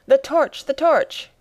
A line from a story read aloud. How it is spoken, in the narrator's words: cried the professor